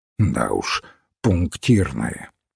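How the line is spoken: Grumbling. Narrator (Russian): проворчал Феннер

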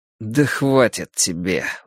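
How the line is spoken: Weary. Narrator (Russian): устало отозвался Дэнни

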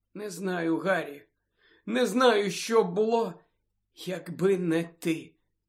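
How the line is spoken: Choked voice. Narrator (Ukrainian): сказала вона здавленим голосом

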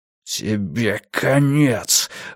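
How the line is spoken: Breathy exhale, man. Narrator (Russian): выдохнул мужчина

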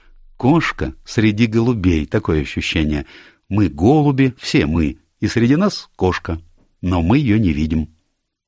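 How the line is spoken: Laughing. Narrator (Russian): рассмеялась и сказала

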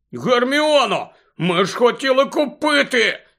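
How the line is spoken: Shouting. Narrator (Ukrainian): закричав Рон

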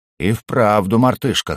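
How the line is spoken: Snorting. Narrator (Russian): хмыкнул перевернувший меня

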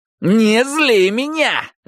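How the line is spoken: Angry barking shout. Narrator (Russian): рявкнул Майки

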